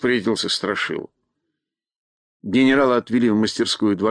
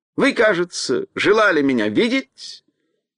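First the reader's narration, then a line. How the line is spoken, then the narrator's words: Ringing pleasant voice. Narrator (Russian): звонким приятным голосом спросил он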